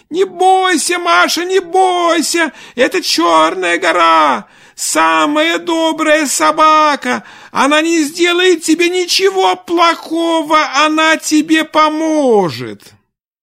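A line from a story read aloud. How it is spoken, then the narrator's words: Shouting. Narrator (Russian): заяц закричал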